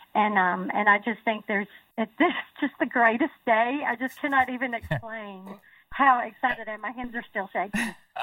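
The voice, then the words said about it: Emotional, teary voice. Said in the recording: “we can hear the emotion, ... in ... your voice. ... putting the Kleenex aside”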